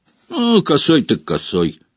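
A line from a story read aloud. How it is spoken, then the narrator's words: Wry snort. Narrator (Russian): хмыкнул Стэн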